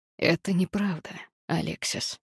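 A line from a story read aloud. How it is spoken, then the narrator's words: Gloomy. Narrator (Russian): мрачно сказал Август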